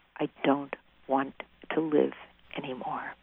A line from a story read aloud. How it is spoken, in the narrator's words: said very clearly and quietly